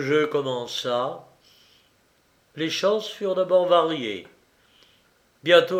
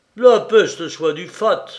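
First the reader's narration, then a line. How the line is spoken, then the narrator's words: Exclamation. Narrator (French): s'écria Don Garcia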